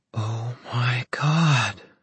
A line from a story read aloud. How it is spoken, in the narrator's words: Emma whispered